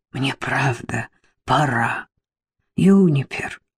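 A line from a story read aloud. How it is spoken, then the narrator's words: Hoarse, strained. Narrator (Russian): хрипло выдавила я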